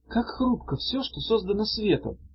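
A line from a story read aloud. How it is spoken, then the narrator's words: Sad. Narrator (Russian): сказала грустно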